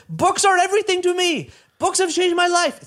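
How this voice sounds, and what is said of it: Put-on accent imitating a driver. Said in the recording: “It's the only accent I do. ... we're not supposed to do accents anymore”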